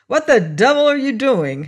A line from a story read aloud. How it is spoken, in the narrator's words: he cried